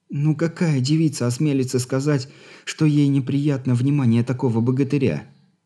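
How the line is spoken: Sad smiling. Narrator (Russian): грустно улыбнулась Алина

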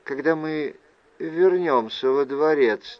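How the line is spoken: Quiet. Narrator (Russian): тихо произнесла она

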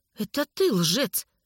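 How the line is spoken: Hiss. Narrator (Russian): прошипел магнетизер

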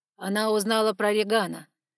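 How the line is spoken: Growling. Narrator (Russian): рыкнул Саймон

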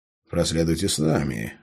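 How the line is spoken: Guard's grunt. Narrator (Russian): хмыкнул страж

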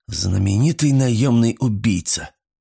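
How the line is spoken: Hoarse whisper. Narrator (Russian): сипло прошептал я

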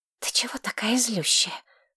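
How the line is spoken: Whisper. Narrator (Russian): прошептала Мэтчин Кодерс

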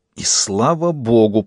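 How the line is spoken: Clown's hiss. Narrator (Russian): прошипел паяц

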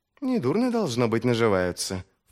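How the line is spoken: Undertone remark. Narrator (Russian): вполголоса заметила Витарий

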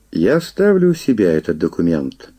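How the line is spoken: Calm. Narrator (Russian): спокойно произнес

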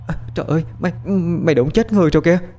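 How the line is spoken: Weak, trembling voice. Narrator (Vietnamese): Môi Trinh run run phát ra âm thanh yếu ớt

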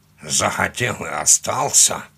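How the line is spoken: Grumbling mutter. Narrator (Russian): буркнул он

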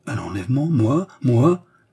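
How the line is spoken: Hopeful exclamation. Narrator (French): s'écria Jeanne qui reprit espoir

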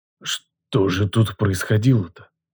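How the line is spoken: Hoarse, strange voice. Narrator (Russian): Голос мой прозвучал хрипло и чуждо

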